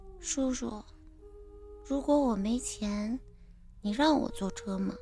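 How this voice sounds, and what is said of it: Soft, quiet little girl's voice. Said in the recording (Chinese): “小女孩神情很是落寞……小声的问我”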